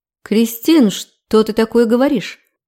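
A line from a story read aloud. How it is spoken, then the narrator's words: Hesitant, embarrassed objection. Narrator (Russian): Неуверенно возразила, покраснев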